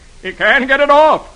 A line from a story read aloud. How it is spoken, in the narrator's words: Herb shouts